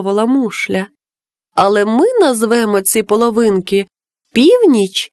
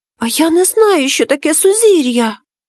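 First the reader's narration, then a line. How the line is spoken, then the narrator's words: Frightened whisper. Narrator (Ukrainian): злякано прошепотів Капулє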